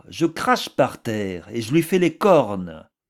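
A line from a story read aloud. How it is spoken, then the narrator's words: Exclaimed. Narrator (French): s'écria-t-elle encore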